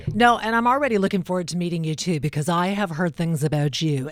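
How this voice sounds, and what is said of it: Smoky, whiskey-toned radio voice. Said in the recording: “radio voice ... smoky whiskey voice, like she's been smoking cigars and drinking like a fine cognac”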